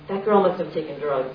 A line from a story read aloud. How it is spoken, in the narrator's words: her father said